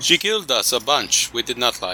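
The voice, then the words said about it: Put-on German accent sounding Russian. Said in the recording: “My German accent just sounds Russian now.”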